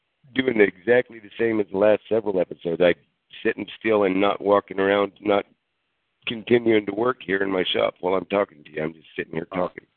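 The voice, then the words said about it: Weak, fading voice from illness. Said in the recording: “my voice going in and out because I am starting to. That is starting to go south right now. ... being sick, my voice is fading.”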